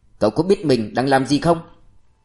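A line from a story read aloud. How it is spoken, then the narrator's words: Angry man. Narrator (Vietnamese): Ông tức giận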